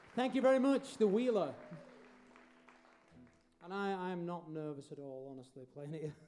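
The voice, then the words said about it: Speaks with a noticeable accent. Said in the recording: “Can you understand what I'm saying with this accent? ... Is anybody confused why I speak like this?”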